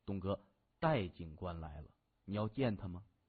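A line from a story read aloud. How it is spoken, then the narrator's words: Whispered in the ear. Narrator (Chinese): 一名北红门的小弟在他耳边轻声说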